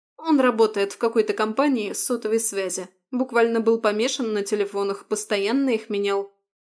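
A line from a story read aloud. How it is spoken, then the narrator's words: Scornful snort. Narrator (Russian): фыркнула Марина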